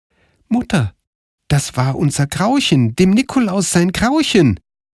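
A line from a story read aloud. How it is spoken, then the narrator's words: Called out. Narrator (German): rief Karl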